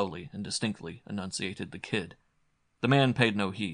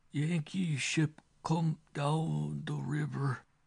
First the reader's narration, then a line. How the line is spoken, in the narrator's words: the quavering response